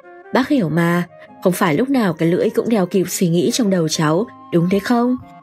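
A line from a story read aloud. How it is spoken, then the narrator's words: Old man, smiling. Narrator (Vietnamese): Ông John mỉm cười bảo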